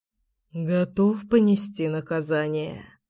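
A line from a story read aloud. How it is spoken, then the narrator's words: Muttering. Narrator (Russian): пробормотал я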